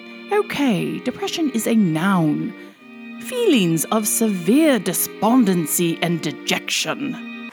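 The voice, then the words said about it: Put-on formal English accent. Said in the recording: “in my best English accent for you, to make it slightly more official ... That's my Shakespearean accent coming through”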